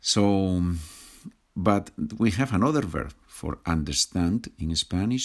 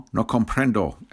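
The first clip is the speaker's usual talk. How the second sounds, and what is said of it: Spanish with put-on American accent. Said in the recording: “With American accent, no? ... I love the American accent, it's wonderful.”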